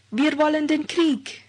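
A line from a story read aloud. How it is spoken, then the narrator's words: Crowd shouting. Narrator (German): Eine Volksmenge schrie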